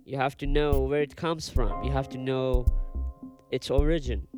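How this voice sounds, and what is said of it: Non-native accented English. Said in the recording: “sorry for my pronunciation and accent ... I'm still insecure for my accent”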